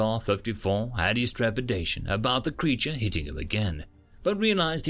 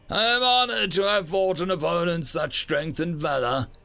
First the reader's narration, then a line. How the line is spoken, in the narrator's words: he bellowed at the audience, with an exaggerated display of triumph